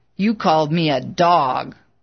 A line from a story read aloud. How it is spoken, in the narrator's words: The man growled